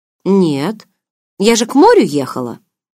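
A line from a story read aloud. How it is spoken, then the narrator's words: Upset. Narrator (Russian): Расстроенно заявила я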